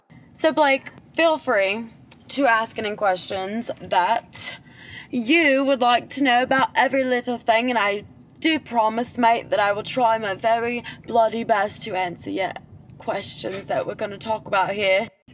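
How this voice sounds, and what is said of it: Shaky put-on accent. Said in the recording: “You're struggling there with that accent.”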